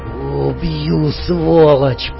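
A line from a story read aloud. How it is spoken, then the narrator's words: Hoarse rasp. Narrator (Russian): прохрипел Фрэнк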